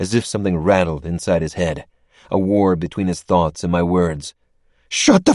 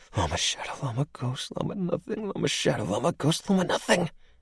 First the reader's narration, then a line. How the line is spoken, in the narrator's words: he whispered over and over